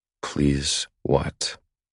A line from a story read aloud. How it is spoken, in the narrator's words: I murmur between her breasts, enjoying her need